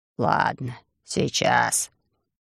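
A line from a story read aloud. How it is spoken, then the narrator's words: Grumbling mole. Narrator (Russian): проворчал крот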